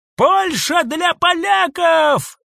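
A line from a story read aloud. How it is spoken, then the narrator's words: Young man yelling. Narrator (Russian): заорал юноша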